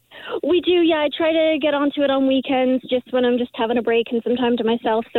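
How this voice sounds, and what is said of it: Canadian accent with English twang. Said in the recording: “you have your Canadian accent, but every now and then you can still hear that kind of like UK ... English twang in there”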